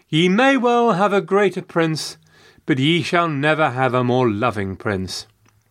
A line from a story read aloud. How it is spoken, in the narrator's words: Elizabeth responded, the second time saying warmly